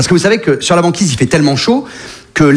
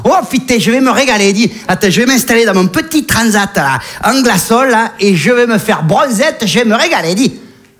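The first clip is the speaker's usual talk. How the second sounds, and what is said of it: Put-on Marseille accent. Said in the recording (French): “les ours blancs ont chopé l'accent marseillais ... un ours blanc avec l'accent marseillais”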